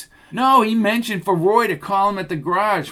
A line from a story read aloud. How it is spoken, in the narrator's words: Roz said in a louder voice